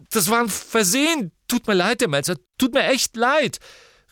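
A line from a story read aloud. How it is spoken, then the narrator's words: Calling after someone. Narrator (German): rief Ron ihr nach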